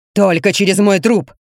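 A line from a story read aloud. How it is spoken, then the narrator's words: Growl. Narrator (Russian): рыкнул Челучи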